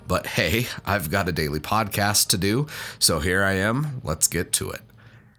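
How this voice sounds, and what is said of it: Voice rough from a cold. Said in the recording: “I sound terrible. I'm fighting a cold and am not feeling that great.”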